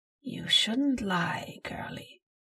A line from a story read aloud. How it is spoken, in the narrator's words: the voice whispered, now straining to sound even close to friendly